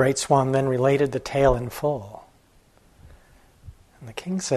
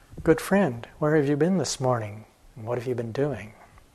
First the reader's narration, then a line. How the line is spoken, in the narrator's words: speaking gently, she asked